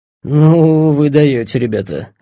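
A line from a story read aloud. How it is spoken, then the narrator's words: Strained forced words. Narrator (Russian): выдавил он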